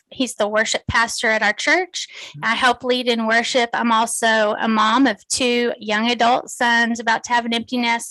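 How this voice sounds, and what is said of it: Texan accent. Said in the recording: “my accent, I'm from Texas”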